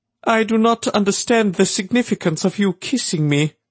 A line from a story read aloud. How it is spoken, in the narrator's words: he said in his high, almost crooning voice